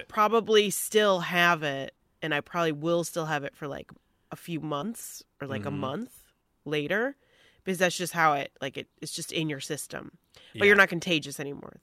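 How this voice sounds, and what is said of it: Congested, stuffy nasal voice. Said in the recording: “you sound a little congested a little bit ... That's just your regular sinus issues ... I always just sound like this now”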